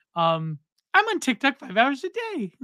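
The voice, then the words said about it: Imitates another person's voice. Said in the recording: “how do I do her voice? It's pretty decent.”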